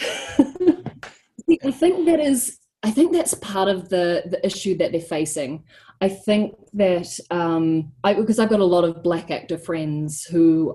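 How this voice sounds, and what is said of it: New Zealand accent. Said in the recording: “my actual accent rather than trying to do an American one... Kiwis do live in America”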